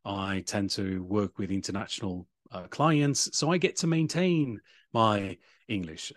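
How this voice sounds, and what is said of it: British English accent. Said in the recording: “I do have this British accent, which is because I lived in England when I was younger.”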